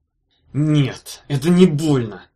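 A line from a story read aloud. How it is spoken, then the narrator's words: Guard hissing. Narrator (Russian): прошипел страж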